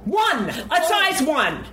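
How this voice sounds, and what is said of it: Yelling loudly. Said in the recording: “sorry for yelling.”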